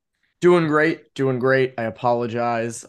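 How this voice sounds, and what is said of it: Hoarse, nearly lost voice. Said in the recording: “My voice is still gone. I lost it. So I'm still kind of struggling to get back to normal”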